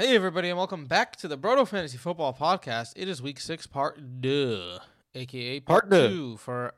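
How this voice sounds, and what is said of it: Usual voice. Nothing is said of it.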